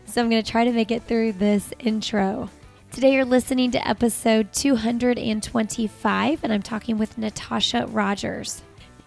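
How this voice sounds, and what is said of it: Hoarse, fading voice. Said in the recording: “excuse my voice here. I have a little bit of a cold and I'm losing my voice.”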